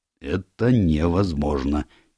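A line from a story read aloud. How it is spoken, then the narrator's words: Quiet. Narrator (Russian): тихо произнес Джеб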